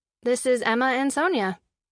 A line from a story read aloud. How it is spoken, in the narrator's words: she said